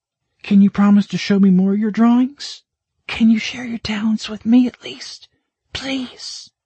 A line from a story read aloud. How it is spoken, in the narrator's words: she whispered